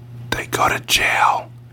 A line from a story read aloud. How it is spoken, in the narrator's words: he whispered solemnly